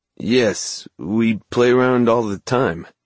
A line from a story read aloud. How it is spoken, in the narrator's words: he said, in that ragged voice that wasn't his at all